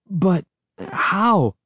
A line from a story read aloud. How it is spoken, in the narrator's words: I stammered